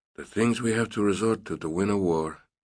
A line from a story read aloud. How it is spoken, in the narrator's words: he mumbled